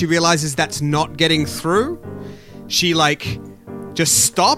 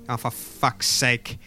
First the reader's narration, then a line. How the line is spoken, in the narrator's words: she mutters to herself